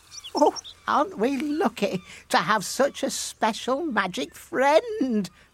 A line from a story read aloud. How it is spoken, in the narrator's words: laughed the fisherman's wife